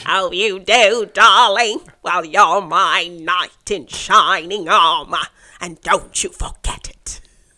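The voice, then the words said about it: Imitates another person's voice. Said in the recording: “your Katharine Hepburn impression ... I prefer your Katharine Hepburn impression”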